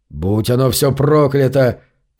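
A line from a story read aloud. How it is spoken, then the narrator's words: Grumbling from behind. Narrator (Russian): проворчал Зарк за его спиной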